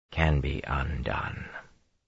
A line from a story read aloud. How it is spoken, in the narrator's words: Rand said softly